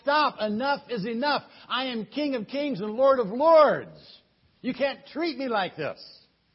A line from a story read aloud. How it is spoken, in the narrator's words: he wanted to shout